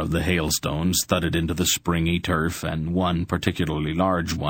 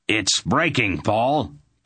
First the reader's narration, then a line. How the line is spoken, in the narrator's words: Belden shouted